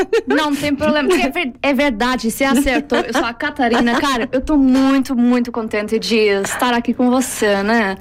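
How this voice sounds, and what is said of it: Put-on Brazilian Portuguese accent. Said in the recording (Portuguese): “um sotaque em modo brasileiro? ... tá a falar muito bem”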